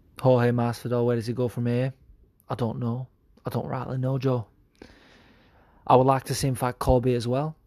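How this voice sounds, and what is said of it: Quiet put-on dialect. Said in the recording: “my voice got quiet. I think it's because I'm not that confident in this dialect.”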